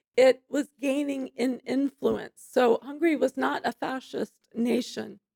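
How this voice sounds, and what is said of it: Hoarse, fading voice. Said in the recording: “I'm losing my voice today.”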